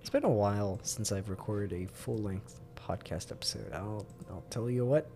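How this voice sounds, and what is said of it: Slightly scratchy voice. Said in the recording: “My voice is feeling a tad scratchy from all that.”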